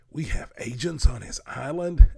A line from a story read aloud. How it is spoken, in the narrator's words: asked Oliver excitedly